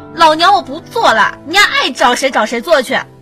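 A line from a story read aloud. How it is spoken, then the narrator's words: Angry shout. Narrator (Chinese): 火大的……大喊道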